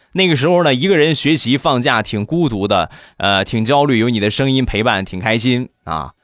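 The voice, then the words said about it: Strong Shandong regional accent. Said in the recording (Chinese): “浓浓的东东北口音... 啊，我这是多么标准的山东话！我是山东人啊，不是东北人。”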